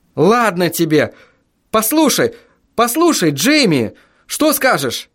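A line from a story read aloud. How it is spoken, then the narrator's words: Desperate exclamation. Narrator (Russian): Воскликнул я в отчаянии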